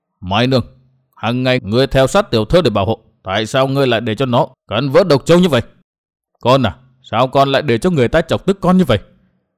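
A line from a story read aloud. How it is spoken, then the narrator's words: Old man, stern question. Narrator (Vietnamese): Cụ già áo xanh nghiêm giọng hỏi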